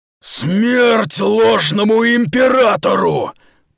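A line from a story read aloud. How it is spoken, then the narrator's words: Roaring. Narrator (Russian): проревел Сахал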